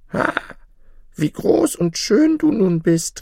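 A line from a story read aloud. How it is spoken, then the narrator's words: Call. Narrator (German): rief sie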